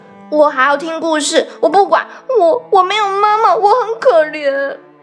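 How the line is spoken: Pouting child. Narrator (Chinese): 乐迪嘟起嘴巴说

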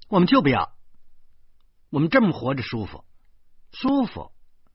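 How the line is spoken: Wife speaking loudly. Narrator (Chinese): 我老婆就大声说

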